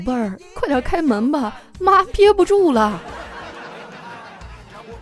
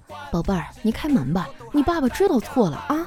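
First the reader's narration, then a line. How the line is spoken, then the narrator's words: Soft, gentle coaxing. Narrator (Chinese): 我嫂子忍不住了，柔声细语地说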